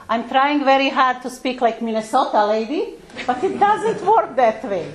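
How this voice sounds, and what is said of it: Heavy non-native accent. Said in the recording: “my beautiful accent, I am a newcomer... I still cannot lose my accent... I have a very heavy accent”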